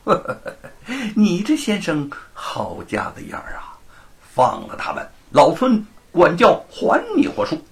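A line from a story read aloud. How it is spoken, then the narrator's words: Laughing. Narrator (Chinese): 行者笑道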